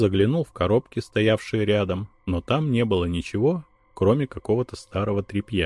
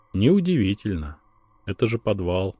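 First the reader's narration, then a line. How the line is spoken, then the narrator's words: Sighed. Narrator (Russian): вздохнул ее спутник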